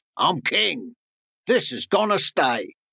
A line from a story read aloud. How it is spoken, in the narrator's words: lion roared